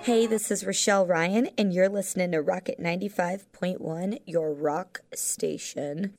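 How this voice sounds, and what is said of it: Sexy radio announcer voice. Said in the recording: “My sexy radio voice.”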